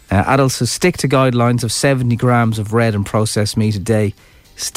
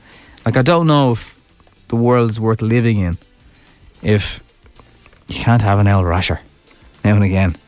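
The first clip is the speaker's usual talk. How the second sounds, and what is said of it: Voice drops lower, glum tone. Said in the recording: “can you just tell the way my voice has gone down?”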